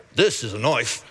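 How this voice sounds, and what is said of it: Put-on Australian accent. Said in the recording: “That's my Australian accent right there. Crocodile Dundee.”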